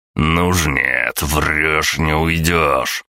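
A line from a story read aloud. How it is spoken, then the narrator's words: Growling. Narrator (Russian): прорычал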